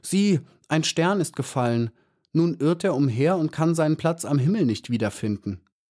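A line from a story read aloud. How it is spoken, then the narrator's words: Calling out. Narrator (German): rief sie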